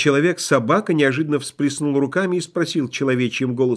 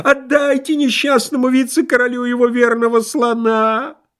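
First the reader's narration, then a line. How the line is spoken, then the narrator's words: Yelled. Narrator (Russian): ответил бухгалтер и, спохватившись, сейчас же завопил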